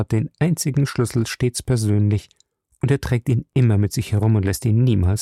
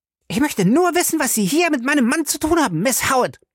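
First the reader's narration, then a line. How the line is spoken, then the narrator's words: Shrill, cracking voice. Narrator (German): fragte sie mit einer schrillen Stimme, die sich überschlug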